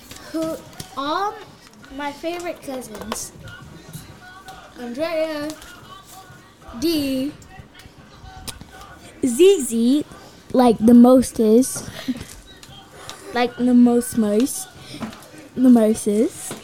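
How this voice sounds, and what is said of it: Put-on British accent. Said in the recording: “I don't know why I'm trying to talk British right now.”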